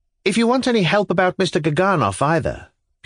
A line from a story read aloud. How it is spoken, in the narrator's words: Pyotr Stepanovitch blurted out suddenly